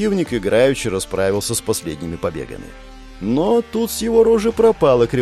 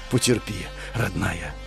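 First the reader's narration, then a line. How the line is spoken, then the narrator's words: Quiet whisper. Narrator (Russian): прошептал я тихо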